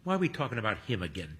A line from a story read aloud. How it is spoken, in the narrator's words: Toby mutters